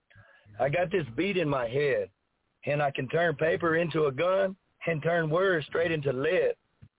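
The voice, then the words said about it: Hoarse, failing voice. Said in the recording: “excuse my voice. It's going out.”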